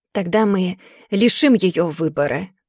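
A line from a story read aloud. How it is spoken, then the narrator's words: Angry hiss. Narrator (Russian): злобно шипит моя сестра с горящим взглядом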